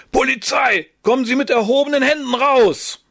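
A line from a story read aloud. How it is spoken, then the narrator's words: Bellowed. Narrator (German): Fischbach brüllte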